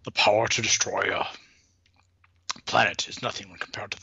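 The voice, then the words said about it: Imitates another person's voice. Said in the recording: “That was Sean Connery doing”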